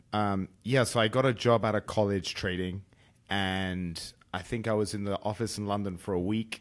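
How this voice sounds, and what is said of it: British accent. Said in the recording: “everybody can tell you're British already because we we heard the accent.”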